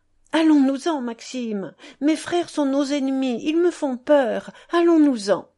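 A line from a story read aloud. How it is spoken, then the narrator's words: Pleading. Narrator (French): Je la suppliais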